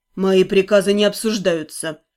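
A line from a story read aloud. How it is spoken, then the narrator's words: Cold. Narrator (Russian): холодно уведомил он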